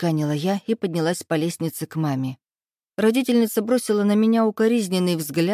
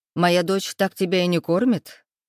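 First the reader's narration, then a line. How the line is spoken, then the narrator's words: Mother's snort. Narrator (Russian): хмыкнула мама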